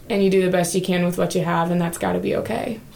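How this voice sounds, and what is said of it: Slight regional accent. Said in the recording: “I noticed you have a little bit of an accent.”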